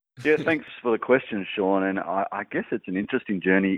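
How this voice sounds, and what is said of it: Noticeable accent. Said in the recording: “my accent”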